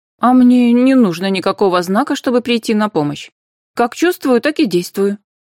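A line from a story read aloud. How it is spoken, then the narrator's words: Very sharp reply. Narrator (Russian): очень резко ответила Анфиса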